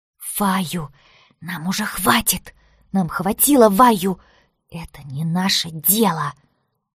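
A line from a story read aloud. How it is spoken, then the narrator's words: Loud hissing whisper. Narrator (Russian): Фэй шипела мне в ухо громким шепотом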